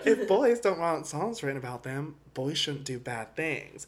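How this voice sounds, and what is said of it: Put-on accent imitating another person. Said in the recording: “Your accent!”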